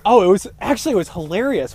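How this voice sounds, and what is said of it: Exaggerated announcer-style voice. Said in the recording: “What was that voice? Sounds like you're an announcer.”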